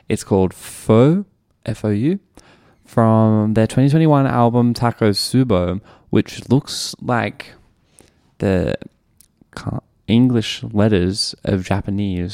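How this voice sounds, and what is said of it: Australian accent. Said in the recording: “in my Australian accent”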